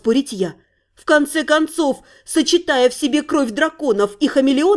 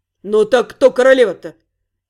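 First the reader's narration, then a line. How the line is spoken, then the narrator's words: Boy's slightly cross question. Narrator (Russian): Все так же чуть сердито поинтересовался паренек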